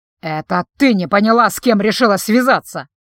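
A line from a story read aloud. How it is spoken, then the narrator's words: Hissing. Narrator (Russian): Зашипел он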